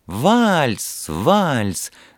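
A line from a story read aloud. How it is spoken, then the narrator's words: Shout. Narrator (Russian): закричала со своего места Вера, большая любительница танцевать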